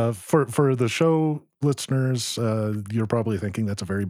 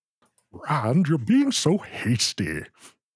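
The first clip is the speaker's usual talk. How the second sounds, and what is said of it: Imitates a fictional character's voice. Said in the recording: “bad Loial impression”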